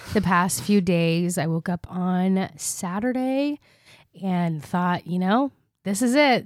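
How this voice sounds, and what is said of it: Sick, congested voice. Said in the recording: “if you can't really tell from my voice, I have been so sick the past few days ... I was just so congested”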